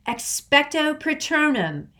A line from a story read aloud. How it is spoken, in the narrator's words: Harry yelled